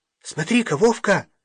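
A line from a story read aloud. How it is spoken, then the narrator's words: Sudden exclamation. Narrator (Russian): вдруг воскликнула Галя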